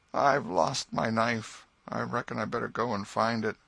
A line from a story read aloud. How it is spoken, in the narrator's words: Joe said feebly